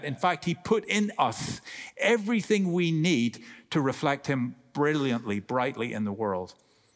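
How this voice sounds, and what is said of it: Irish accent. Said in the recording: “with my accent, I hope you got that. Shape, right? In Ireland, we will say shape.”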